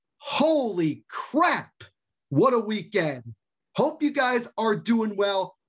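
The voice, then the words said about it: Excited, pumped-up energetic voice. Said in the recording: “As you can see from my tone of voice, I am super pumped up”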